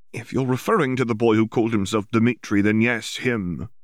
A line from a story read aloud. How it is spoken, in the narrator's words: Hermione said, not a little irritably